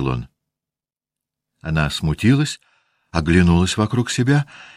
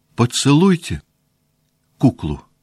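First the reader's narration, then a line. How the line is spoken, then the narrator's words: Plain. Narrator (Russian): сказала она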